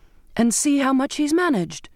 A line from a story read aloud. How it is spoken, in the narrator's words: I cried